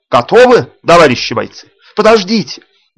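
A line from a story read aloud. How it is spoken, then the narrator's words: Booming shout. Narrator (Russian): Крикнул зычно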